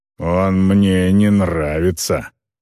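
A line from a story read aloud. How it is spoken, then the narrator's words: Growled. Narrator (Russian): прорычал Грэнд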